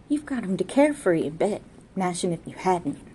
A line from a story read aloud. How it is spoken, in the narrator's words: murmured judiciously